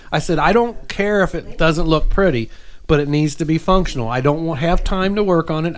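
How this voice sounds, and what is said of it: Accent slipping into speech. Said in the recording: “Here's that accent again. ... It's slipping.”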